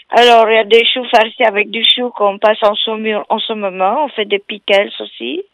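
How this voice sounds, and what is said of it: Romanian accent speaking French. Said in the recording (French): “C'est quoi ce petit accent ... ah, c'est roumain ... un, accent magnifique”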